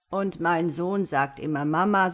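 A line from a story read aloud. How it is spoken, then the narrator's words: Plain. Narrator (German): sagt er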